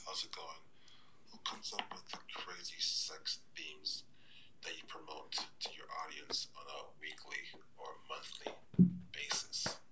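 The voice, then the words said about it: Deep smooth radio voice. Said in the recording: “he has a great radio voice”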